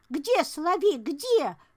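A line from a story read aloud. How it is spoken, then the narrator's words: Loud shout. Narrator (Russian): громко крикнула Маруся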